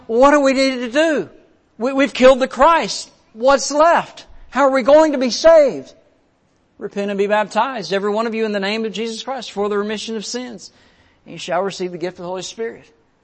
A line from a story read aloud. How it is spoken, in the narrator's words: shouting out